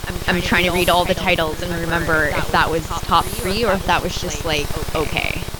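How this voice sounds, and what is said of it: Canadian accent. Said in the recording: “You sound so Canadian when you say that.”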